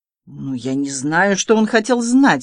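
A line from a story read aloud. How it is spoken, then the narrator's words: Groaning, sweating wretch. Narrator (Russian): стонал бедняга, обливаясь потом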